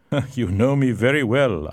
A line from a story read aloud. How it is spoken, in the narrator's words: laughed